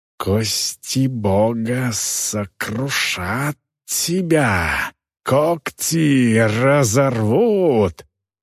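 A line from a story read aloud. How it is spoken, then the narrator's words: Growling. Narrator (Russian): прорычал красноглазый человек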